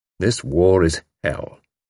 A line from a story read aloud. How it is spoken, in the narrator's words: Tommy said gloomily